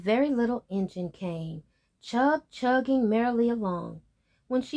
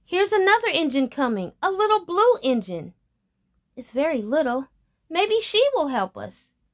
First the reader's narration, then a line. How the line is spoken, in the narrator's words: the little clown called out